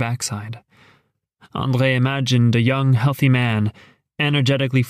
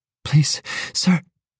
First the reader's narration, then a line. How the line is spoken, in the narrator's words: she panted